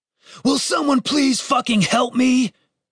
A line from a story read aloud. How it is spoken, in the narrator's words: Dave shouted